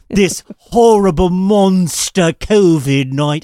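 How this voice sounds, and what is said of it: Put-on British accent. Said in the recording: “I'm doing the British accent”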